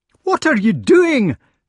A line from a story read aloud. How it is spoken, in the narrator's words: shouted Gawain